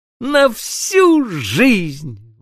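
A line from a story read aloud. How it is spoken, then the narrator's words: Exclaimed. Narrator (Russian): воскликнула Аннушка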